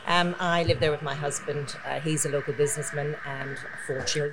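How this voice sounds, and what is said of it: Very strong accent. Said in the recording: “despite the accent. ... It's very strong. ... I love her accent.”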